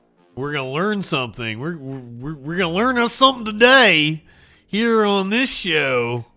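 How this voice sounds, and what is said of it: Eastern Kentucky accent. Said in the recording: “that's my natural accent, by the way. I'm from Eastern Kentucky. I am not mocking the hillbilly people.”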